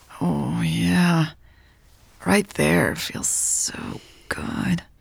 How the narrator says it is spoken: Louise purred

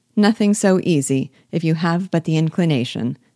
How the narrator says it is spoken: said Elizabeth

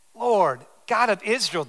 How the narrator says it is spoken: they cried

